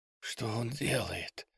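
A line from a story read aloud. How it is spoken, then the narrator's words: Cautious whisper. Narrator (Russian): спросил шепотом Алекса, боясь привлечь внимание лесовой и Бузины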